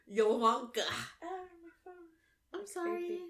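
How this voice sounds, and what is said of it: Sultry French maid accent. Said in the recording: “You sound like a slutty French maid.”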